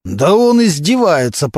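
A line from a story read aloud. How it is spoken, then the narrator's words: Continued growling. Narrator (Russian): продолжал рычать Мантуленко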